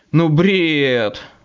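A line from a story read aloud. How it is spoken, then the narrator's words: Groaning. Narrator (Russian): застонал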